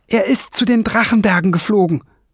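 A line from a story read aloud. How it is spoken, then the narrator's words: Calling out. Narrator (German): rief Fliegenbein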